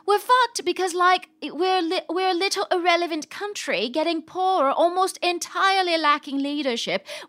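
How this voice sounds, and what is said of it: Put-on British accent. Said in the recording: “I should do this in a British accent.”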